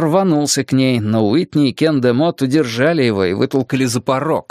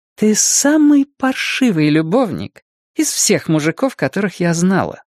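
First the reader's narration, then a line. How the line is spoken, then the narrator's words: Sweet voice. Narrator (Russian): сладким голосом поведала ему Дэйна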